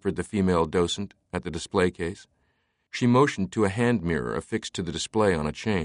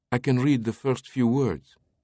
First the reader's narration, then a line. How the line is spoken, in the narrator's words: she said